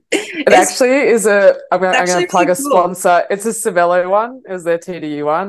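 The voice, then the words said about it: Australian accent. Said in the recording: “so Australian with our intros ... a bit of, again, an Australian twang to this podcast”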